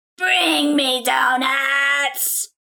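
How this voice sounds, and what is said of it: Imitates a possessed woman's voice. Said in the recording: “You basically just need to hear her voice ... I can do that voice”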